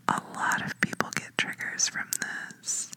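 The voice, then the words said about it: Whispering. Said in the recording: “whisper into your ear ... I'm whispering in your right ear”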